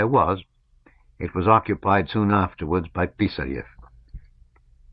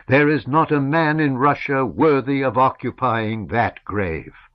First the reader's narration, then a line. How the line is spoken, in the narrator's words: Chernyshevsky exclaimed